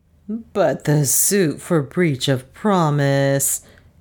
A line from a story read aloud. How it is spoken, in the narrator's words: groaned